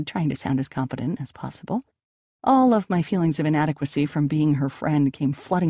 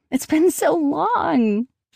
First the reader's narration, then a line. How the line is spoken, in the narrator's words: she squealed